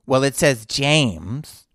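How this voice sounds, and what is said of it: Put-on accent imitating a woman. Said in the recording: “I'm doing an accent because that's the accent this woman was doing.”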